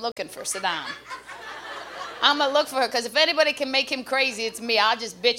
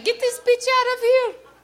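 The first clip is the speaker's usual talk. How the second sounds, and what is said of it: Impression of Saddam Hussein. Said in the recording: “I think that's a pretty good impression. You never really heard him speak, did you?”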